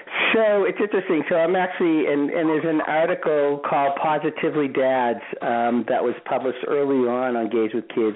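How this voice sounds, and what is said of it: Boston accent. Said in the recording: “that whole entire, like, that Boston accent going on, too, because I can definitely tell the accent ... clearly the accent does not leave me. I'm from Boston.”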